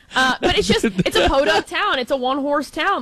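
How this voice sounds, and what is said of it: Put-on Chicago accent. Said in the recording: “I guess I can do my Chicago.”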